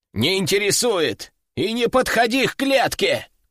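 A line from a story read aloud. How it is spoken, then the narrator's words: Shouted. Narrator (Russian): крикнул он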